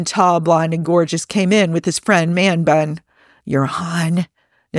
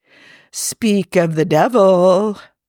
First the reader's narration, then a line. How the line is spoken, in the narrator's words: Natasha purred